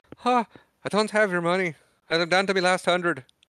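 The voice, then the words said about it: Put-on accent for a character. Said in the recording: “Good pull for the accent.”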